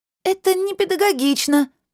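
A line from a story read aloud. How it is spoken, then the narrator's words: Squeak. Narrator (Russian): пискнула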